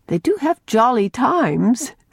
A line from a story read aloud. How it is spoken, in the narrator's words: said Anne, laughing over the recollections of some Rainbow Valley happenings that had come to her ears